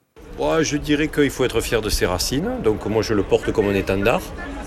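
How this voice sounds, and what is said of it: Southern French accent. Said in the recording (French): “vous avez l'accent que j'ai... l'accent du Sud”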